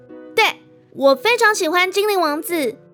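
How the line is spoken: Cheerful, smiling. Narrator (Chinese): 他却笑了笑，特别开朗的说

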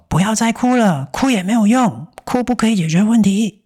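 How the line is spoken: Increasingly loud, helpless. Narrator (Chinese): 阿嬷不晓得要怎么样安抚这个孩子，只好一次比一次大声地说

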